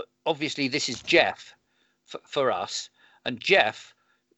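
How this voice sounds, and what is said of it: Usual voice. Nothing is said of it.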